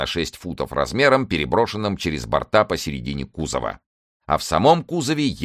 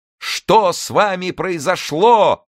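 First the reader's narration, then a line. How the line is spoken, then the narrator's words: Loud laughing crowd shouting. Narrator (Russian): громко кричали ему все люди, и все хохотали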